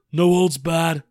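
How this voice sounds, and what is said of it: Imitates another person's voice. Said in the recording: “my Dave Gettleman impression ... That was really good”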